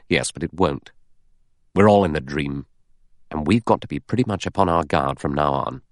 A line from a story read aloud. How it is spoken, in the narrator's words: Philip Lombard said gravely